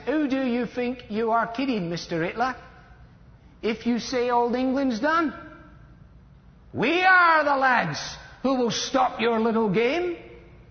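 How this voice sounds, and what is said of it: Put-on Cockney accent. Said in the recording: “In a Cockney accent,”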